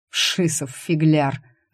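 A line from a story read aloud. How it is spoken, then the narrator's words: Laughing. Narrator (Russian): рассмеялся Шорох в ответ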